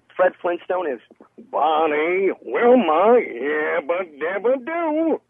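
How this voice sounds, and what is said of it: Deep Fred Flintstone cartoon voice. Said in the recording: “I'm the voice of Fred Flintstone ... You have a very similar tone to the actor Alan Reed, who performed as Fred Flintstone originally ... Can you do a little voice acting for us? ... that was good ... my natural voice is higher”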